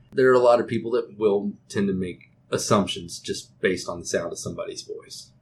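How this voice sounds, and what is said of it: Texas accent. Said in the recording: “being in Texas ... I have an accent. I know it.”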